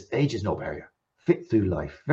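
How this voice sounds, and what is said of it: Put-on West Country accent. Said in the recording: “I gave you a West Country accent there ... I couldn't do Glasgow just like that”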